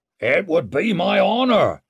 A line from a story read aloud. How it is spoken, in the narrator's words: shouted Mustred